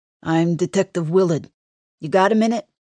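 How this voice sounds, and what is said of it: Queens New York accent. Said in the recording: “The detective's accent sounds more Queens than Long Island.”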